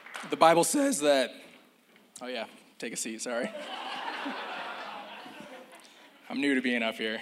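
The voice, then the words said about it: Strained, spent voice. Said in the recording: “you might not catch some frequencies that come out of my mouth... My voice is spent.”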